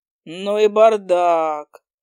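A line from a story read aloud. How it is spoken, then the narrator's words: Drawling. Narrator (Russian): протянул он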